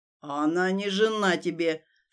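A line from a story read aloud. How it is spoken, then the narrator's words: Indignant with growling tone. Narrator (Russian): с рычащими нотками в голосе возмутился Элиас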